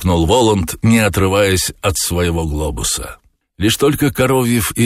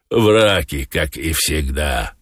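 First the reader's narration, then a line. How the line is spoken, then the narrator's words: Grumbling. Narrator (Russian): ворчал Азазелла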